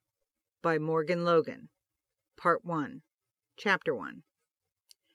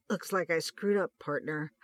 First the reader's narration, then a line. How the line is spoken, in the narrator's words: Hutch gasped out, ... as he grunted in pain